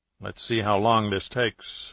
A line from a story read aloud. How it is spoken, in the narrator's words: Bello said quietly